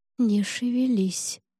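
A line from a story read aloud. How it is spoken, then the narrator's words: Soundless mouthed breath. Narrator (Russian): одними губами выдохнула я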